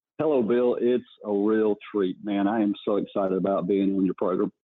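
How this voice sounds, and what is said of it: Southern US North Carolina accent. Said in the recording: “judging by that accent, I'm going to even venture a guess that you're a native of North Carolina ... you're just a Southern gentleman”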